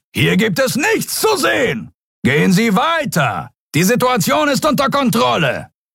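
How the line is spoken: Roaring. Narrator (German): brüllte er

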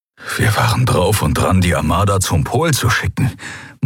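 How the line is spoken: Horrified murmur. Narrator (German): murmelte er, entsetzt darüber, wie fatal diese Entscheidung gewesen wäre

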